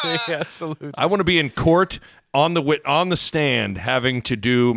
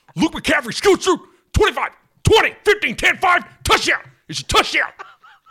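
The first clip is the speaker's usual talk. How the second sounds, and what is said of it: Excited sports announcer impression. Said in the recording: “do our reads as Greg Sharp ... my impression ... can you tell the difference between the real Greg Sharp and this guy?”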